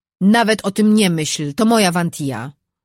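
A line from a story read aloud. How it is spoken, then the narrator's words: Growled. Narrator (Polish): warknął Czart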